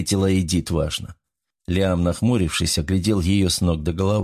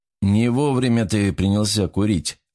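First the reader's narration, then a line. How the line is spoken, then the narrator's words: Grim. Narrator (Russian): мрачно заявил он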